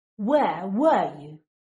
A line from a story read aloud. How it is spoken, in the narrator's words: Draco snaps